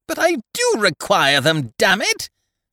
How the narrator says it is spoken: shouted, lost to all proper feeling

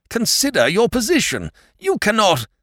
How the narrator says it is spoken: he almost howled

